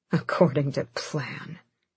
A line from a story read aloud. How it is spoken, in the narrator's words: Aelin breathed